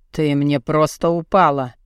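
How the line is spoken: Gloomy interruption. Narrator (Russian): мрачно прервал

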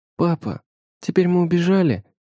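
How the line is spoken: Timid question, older child. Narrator (Russian): робко спрашивает старшая

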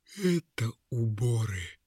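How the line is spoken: Quiet reply. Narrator (Russian): тихо ответил мешок хитростей

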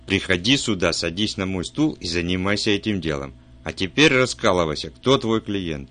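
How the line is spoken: Angry. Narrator (Russian): Поняв издевку, он зло сказал

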